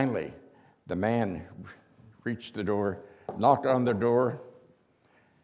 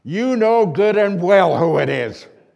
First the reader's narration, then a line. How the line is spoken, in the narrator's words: yelled the salesman, his face red with anger